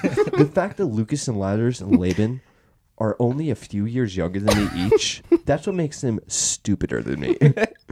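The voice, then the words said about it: Convincing impression of a friend. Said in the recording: “thoughts on that impression? ... That was pretty solid. ... If I had my eyes closed, I'm pretty sure there's two Levi's in here.”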